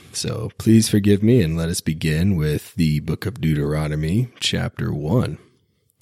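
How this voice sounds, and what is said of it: Slightly raspy voice. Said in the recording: “I'm a little bit under the weather and my voice is a little bit raspy.”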